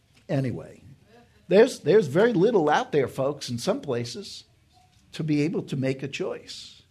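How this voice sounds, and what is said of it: New York accent. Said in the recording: “I have a New York accent.”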